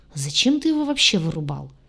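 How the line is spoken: Thoughtful question. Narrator (Russian): Задумчиво уточнил Двар

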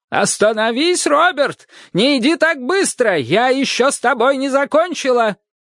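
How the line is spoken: Yelling at full volume. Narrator (Russian): орала во всю мощь легких

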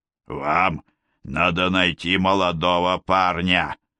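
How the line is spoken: Old man's wheeze. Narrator (Russian): просипел старик

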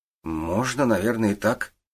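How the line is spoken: Uncertain young man. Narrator (Russian): неуверенно ответил парень

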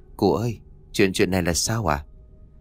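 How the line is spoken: Soft question. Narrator (Vietnamese): khẽ giọng hỏi

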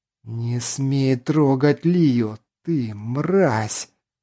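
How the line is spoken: Hissed in face. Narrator (Russian): Прошипел он прямо в лицо незнакомцу

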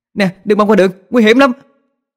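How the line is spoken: Startled loud shout. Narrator (Vietnamese): Tôi giật mình theo phản xạ, hét lên thật lớn

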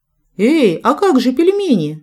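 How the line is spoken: Laughing exclamation. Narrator (Russian): смеясь, воскликнула я

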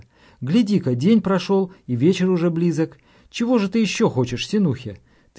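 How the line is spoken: Exclamation. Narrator (Russian): воскликнула

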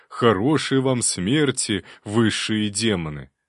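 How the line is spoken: Joyful. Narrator (Russian): простодушный кобальт радостно скажет

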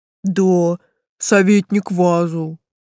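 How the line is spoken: Muffled dull voice. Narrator (Russian): глухо сказал Тесл

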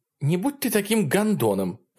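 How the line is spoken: Sharp blurt. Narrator (Russian): резко выпаливает Кристал

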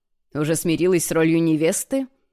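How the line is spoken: Snorting. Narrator (Russian): Хмыкнул он

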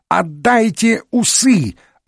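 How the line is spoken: Hysterical yelling. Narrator (Russian): орал в истерике Жюв

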